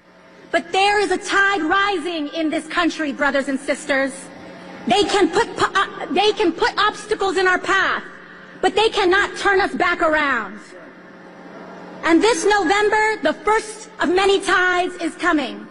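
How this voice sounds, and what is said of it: Put-on accent in speech. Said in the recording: “she puts on another accent”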